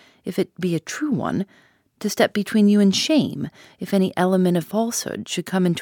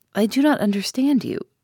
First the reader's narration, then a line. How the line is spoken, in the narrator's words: said she